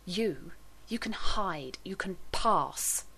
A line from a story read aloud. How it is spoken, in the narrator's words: Rodney snarled